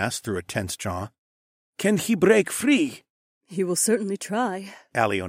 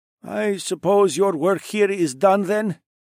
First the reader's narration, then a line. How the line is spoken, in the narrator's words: Calvin sighed